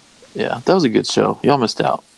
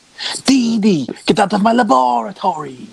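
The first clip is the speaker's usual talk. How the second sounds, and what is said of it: Cartoon character voice with slight accent. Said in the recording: “he had this little accent.”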